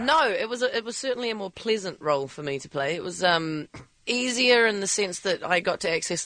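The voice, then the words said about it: Congested, snuffly voice from a cold. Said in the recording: “I'm a little snuffly today, actually. I think it's, you know, it rains in L.A. and suddenly we all get colds”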